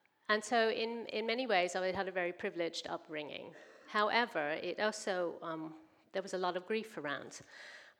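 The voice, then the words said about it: American accent. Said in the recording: “raised in a Baptist church in America, in St. Louis, is where I'm from. You may have noticed my accent.”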